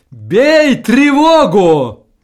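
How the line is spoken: Mayor shouting from above. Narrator (Russian): городской голова крикнул сверху

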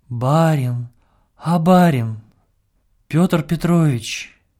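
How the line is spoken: Weak, slow, hoarse rustling voice. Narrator (Russian): Послышался мне голос, слабый, медленный и сиплый, как шелест болотной осоки

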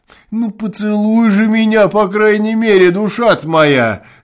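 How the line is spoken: Babbling. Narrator (Russian): залепетал обалдуй

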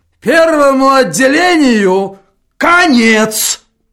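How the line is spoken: Angry shout. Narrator (Russian): сердито крикнул

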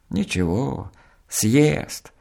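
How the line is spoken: Muttered. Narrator (Russian): бормочет Тимка

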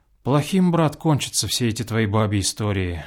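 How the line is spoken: Sighing. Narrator (Russian): вздохнул я

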